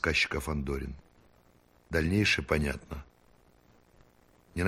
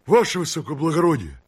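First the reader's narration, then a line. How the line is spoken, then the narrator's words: Pleading policeman. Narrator (Russian): взмолился околотушный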